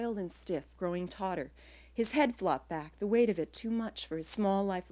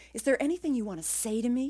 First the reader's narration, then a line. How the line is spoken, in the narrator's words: He said desperately